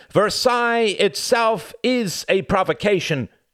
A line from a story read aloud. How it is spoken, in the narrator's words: cried Cuthbert